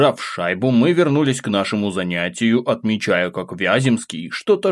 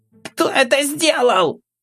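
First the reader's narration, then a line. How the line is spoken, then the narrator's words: Shrill tearful shout. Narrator (Russian): искляво закричал Витя, вытирая при этом слезы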